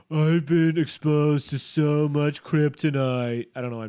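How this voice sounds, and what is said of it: Imitates another person's voice. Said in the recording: “doing a Donald Trump impression.”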